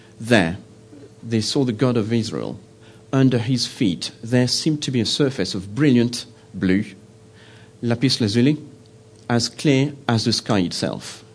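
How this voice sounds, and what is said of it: Non-native English accent. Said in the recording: “my bad English accent”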